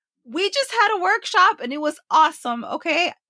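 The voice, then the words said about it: Loud, excited, energetic voice. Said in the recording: “That's why I'm screaming. ... I'm like super energetic.”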